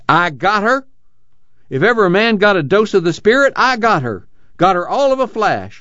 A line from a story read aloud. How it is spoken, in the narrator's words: Suddenly he cried